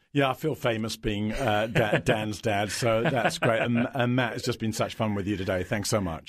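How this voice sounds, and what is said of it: Deep voice with British accent. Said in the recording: “He's got this deep voice. You sound so much like him, but you've got the British accent.”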